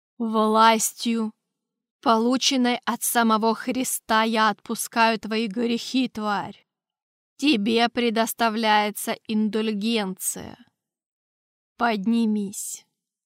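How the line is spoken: Slow deliberate speech. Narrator (Russian): Торквемада медленно произнес

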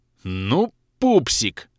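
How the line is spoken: Growling. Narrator (Russian): рыкнул

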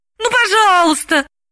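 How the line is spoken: Pleading. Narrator (Russian): взмолилась Галина

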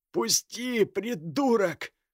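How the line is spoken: Hoarse gasping hiss. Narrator (Russian): хрипло прошипел Кир, хватая ртом воздух

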